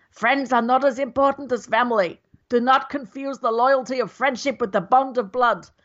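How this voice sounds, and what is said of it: Failed Marlon Brando impression, sounds Russian. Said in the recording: “you started to do a Russian accent ... it's supposed to be Marlon Brando ... you failed spectacularly there ... it wasn't very good”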